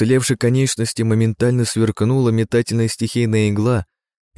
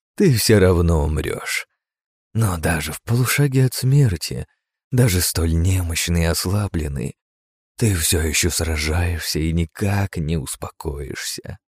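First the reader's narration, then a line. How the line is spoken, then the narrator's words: Delighted joyful whisper. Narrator (Russian): прошептала с удовольствием и радостью она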